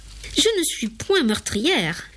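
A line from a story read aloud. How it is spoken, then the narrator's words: Woman exclaiming. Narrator (French): s'exclama-t-elle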